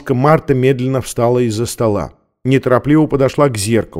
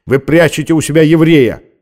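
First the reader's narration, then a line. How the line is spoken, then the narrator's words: Officer's harsh bark. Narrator (Russian): рявкнул с порога офицер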